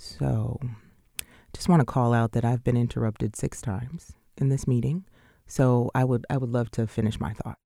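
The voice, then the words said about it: Low, calm, deliberate tone. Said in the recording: “tone of voice ... used? She calls that her quiet storm voice. She purposely uses that low, calm tone of voice”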